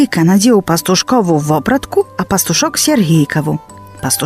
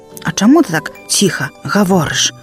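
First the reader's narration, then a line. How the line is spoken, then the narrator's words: Quiet question. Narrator (Belarusian): таксама ціха спытаў Сергійка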